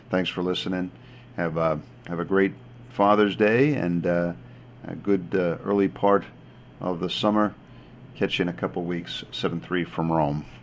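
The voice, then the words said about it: Choked-up, emotional voice. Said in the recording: “You could tell I'm a bit choked up here.”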